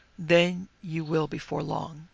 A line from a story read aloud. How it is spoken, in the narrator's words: he said very gravely